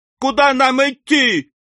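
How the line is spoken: Alarmed crowd yelling. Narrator (Russian): вопили всполошившиеся пиквикисты

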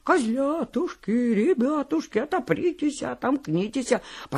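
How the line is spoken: Thin high singing. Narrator (Russian): волк и запел тоненьким голоском

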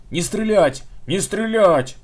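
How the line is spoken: Belated yell. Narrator (Russian): запоздало заорал капитан

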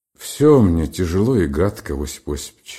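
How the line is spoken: Quiet reply. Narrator (Russian): отозвался тихо Бобров

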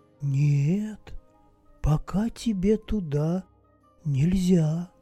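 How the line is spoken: Calm quiet. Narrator (Russian): спокойно и тихо ответила та

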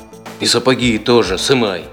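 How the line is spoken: Plain. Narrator (Russian): сказал человек

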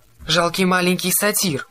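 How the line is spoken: Roaring. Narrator (Russian): проревела она

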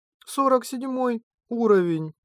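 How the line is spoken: Dejected mutter. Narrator (Russian): пробормотала и сникла

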